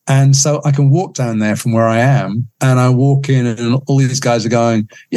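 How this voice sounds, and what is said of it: American accent. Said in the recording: “That doesn't sound right with an American accent, does it? It doesn't sound good.”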